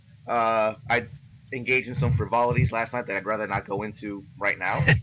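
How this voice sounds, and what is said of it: Slightly hoarse voice. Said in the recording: “excuse my voice a little bit. My uh, throat's a little hoarse”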